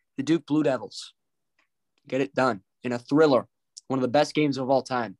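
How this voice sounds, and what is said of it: Hoarse, strained sick voice. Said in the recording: “I'm losing my voice. I'm sick.”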